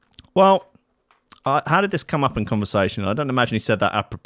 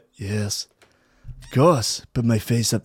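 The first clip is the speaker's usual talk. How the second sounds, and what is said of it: Bad impression of another person's voice. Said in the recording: “That's the worst Donald Trump impression I've ever done.”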